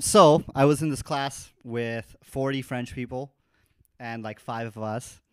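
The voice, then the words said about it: North American accent. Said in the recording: “my home country, which you can probably tell is in North America by my accent”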